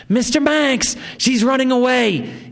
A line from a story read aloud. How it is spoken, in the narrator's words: he screamed